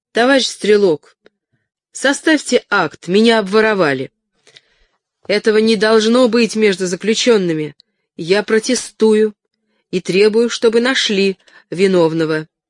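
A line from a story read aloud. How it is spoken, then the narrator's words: Loud clipped rash declaration. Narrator (Russian): не давая себе труда взвесить последствия, громко отчеканила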